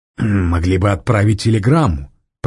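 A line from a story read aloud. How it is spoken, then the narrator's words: Grumbling. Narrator (Russian): проворчал Мизинов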